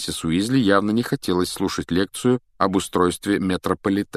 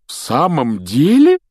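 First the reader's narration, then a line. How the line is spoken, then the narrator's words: Delighted exclamation. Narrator (Russian): с нескрываемым восторгом воскликнул мистер Уизли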